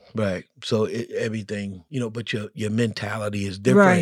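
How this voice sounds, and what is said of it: Usual voice. Nothing is said of it.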